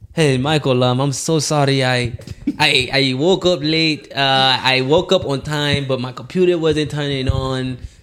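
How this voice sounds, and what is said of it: Put-on accent imitating another person. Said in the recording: “Please stop the accent. Please, please stop that. ... That's how he talk.”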